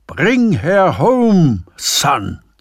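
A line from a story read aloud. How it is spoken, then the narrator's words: Roaring. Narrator (German): zu brüllen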